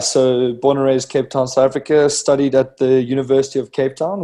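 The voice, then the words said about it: Slight South African accent. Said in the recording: “As you can probably hear by the slightly strange accent ... we detected a slight accent”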